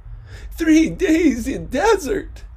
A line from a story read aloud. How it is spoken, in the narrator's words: Dika cried